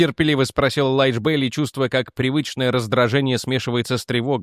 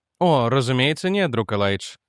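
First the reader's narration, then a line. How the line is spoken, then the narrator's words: Calm reply. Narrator (Russian): спокойно ответил Дэниел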